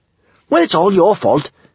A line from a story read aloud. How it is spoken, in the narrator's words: snapped Kamikaze